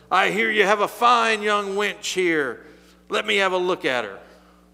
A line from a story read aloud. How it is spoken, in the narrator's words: bellowed